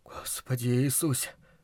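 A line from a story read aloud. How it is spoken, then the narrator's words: Whisper. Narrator (Russian): шептал Луис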